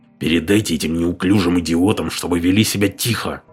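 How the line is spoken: Furious hiss. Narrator (Russian): яростно прошипел Талак

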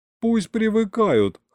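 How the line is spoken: Chuckling. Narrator (Russian): хохотнул Саня

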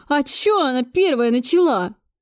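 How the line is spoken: Whining. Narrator (Russian): прохныкала Виталя

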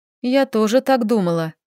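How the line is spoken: Grumbled. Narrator (Russian): пробурчала

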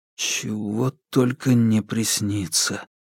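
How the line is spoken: Mumbling to himself. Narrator (Russian): пробормотал себе под нос, просто чтобы услышать свой голос

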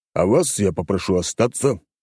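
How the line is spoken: Gendarme, said sternly. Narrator (Russian): строго сказал жандарм

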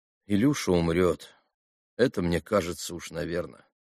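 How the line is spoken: Sad reply. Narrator (Russian): грустно ответил Алеша

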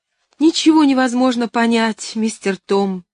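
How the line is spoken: Sobbing. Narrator (Russian): продолжая всхлипывать, ответила Нэнси

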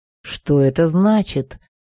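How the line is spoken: Thunderous terrible voice. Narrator (Russian): загремел ужасным голосом Витязь

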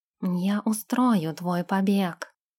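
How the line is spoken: Whisper. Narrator (Russian): прошептал Нэш

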